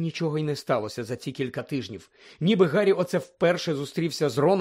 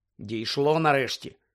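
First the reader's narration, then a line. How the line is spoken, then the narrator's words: Cold reply. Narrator (Ukrainian): холодно відповів Гаррі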